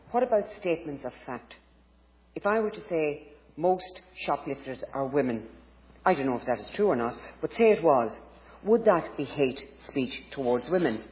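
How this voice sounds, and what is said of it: Woman with Irish accent. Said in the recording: “Her English is an Irish accent”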